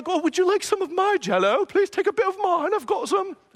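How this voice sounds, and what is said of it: Bad put-on British accent. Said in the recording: “I can't do a British accent ... There's my terrible British accent.”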